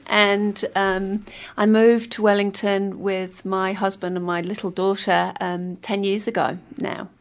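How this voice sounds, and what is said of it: Yorkshire English accent. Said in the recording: “accent it's not a strong New Zealand accent ... Set in my best accent ... In Yorkshire.”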